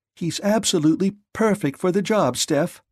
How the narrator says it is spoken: she cried

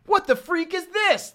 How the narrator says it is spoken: Liant exclaimed

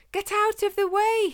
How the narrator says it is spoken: screamed in fear

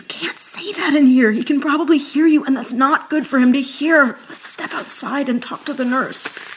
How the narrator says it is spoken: whispered

